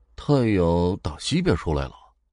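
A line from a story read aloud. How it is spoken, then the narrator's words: Muttering. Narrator (Chinese): 门口的保安 嘟囔了一句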